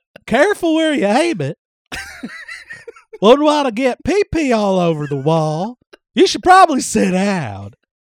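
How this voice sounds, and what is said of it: Imitates another person's voice. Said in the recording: “There's like 90% Harry Carey and 10% Hank Hill. ... my Hank is slipping in everything now ... 80% Harry Carey, 10% Hank Hill, and 10% Will Ferrell's Harry Carey impersonation”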